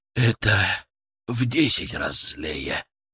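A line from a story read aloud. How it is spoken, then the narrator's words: Breathed out. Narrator (Russian): Выдохнул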